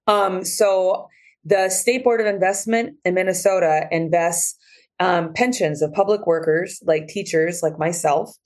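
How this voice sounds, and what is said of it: Scratchy, hoarse voice. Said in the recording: “my voice sounds so scratchy is from a lot of chanting and yelling this week”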